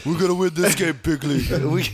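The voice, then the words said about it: Donald Trump impression. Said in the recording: “the Trump impersonation”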